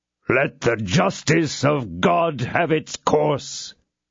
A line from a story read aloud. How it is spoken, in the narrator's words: he exclaimed in a loud voice